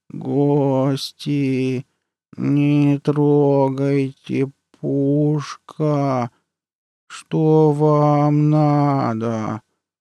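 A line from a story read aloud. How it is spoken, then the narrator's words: Nasal voice. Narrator (Russian): Прогнусавило что-то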